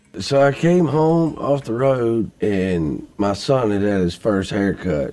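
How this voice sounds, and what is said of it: Very thick accent. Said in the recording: “Brantley Gilbert has a very thick accent.”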